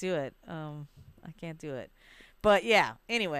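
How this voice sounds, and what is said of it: Usual voice. Nothing is said of it.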